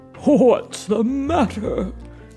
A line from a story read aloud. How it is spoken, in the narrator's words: Santa said merrily